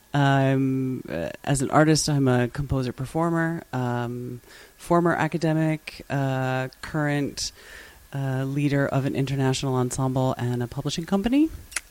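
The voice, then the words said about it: American English accent. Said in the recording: “Did the accent give it away? ... originally from the US”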